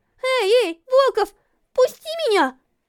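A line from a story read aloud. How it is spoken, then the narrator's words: Struggling girl exclaiming. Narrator (Russian): Воскликнула девушка, вырываясь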